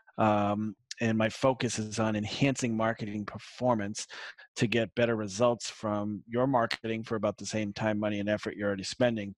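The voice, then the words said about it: Slight Boston accent. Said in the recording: “a little uh, little Boston accent”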